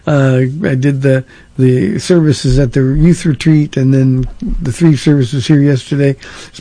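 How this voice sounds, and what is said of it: Rough, strained voice. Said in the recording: “my voice is a little on the really edgy side”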